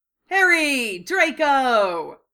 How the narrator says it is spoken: Fred shouted their names loudly

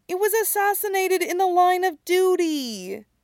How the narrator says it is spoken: Stiles whines

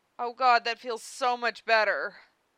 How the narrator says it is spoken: Karkat said, the words closer to a warble than a moan

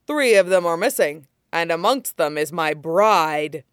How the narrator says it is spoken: the lion-muzzled man explains, unable to prevent a growl at this apparent tragedy

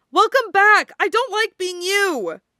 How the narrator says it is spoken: she yelled into his chest

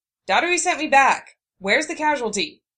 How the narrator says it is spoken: she barked

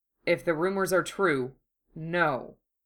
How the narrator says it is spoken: the inspector said grimly

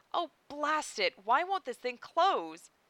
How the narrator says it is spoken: exclaimed

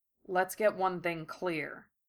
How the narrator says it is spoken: Gara said icily

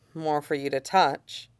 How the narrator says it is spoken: Nikki says, just as quietly

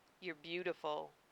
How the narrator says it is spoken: he murmured against her lips

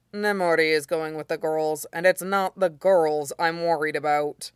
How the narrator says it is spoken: Aizawa said flatly

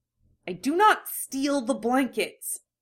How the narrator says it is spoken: Sasuke hisses

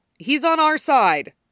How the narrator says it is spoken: Hana shouts

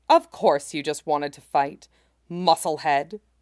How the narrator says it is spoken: Sanji grumbles

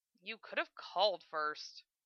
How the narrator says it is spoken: Lena grumbled

